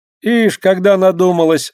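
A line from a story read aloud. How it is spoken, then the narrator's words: Laughing. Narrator (Russian): засмеялась Лина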